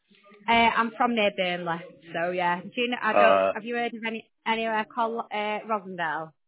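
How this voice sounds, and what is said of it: Lancashire English accent. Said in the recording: “Is that a Lancashire accent I can detect from you? ... my Lancashire accent's still there.”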